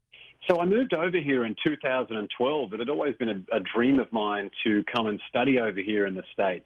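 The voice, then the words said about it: Australian accent. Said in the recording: “I know several Aussies ... my accent”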